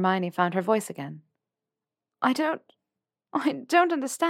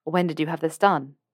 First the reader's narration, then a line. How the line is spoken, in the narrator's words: asked Theo